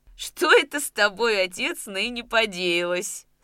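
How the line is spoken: Laughing question. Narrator (Russian): Смеясь, спросила она

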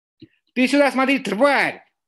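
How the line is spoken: Yelled. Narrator (Russian): заорал Брэд Питт

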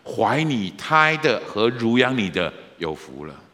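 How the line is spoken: Loud woman's voice. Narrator (Chinese): 一个女人大声说

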